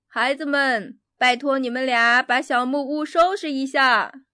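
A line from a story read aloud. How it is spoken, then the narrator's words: Shouting. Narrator (Chinese): 喊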